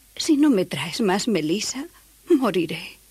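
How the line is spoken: Pleading. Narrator (Spanish): imploró

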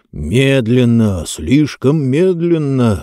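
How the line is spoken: Through clenched teeth. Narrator (Russian): сквозь зубы процедил Джонс

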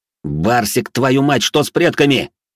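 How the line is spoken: Roaring. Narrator (Russian): взревел я

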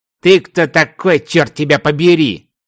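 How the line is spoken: Sharp surprised shout. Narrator (Russian): резко выкрикнул Мартин, тоже не слабо удивившись

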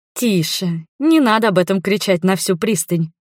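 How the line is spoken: Laughing request. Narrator (Russian): смеясь, попросила я

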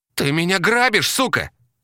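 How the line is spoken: Loud exclamation. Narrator (Russian): громко воскликнула Мотыга

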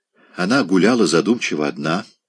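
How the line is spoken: Quiet speech. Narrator (Russian): тихо говорил он

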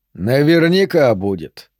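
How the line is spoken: Sarcastic. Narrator (Russian): язвительно отметил кочевник

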